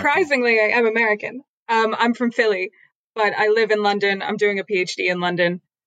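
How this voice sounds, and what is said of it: Transatlantic accent. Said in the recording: “You seem to both have accents ... tell from your voice you're already converted ... That transatlantic accent ... The William Buckley ... George Plimpton, a veritable George Plimpton”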